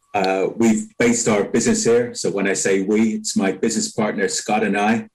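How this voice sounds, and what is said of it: Non-local regional accent. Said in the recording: “you can tell by my accent, I'm not a native of Kent”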